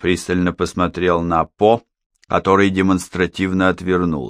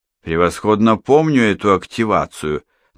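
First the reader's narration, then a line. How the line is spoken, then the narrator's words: Mocking. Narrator (Russian): насмешливо прибавил Хеннинг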